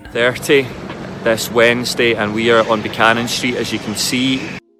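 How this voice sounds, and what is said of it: Glaswegian Scottish accent. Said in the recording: “Scottish accent ... This is a very distinct one ... He sounds like Shrek ... Scottish accent ... from Glasgow, so it's a Glaswegian accent”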